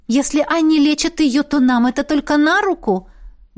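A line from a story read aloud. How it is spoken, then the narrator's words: Exclaiming. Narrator (Russian): воскликнула Беата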